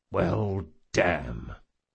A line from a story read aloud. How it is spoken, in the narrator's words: muttered Jean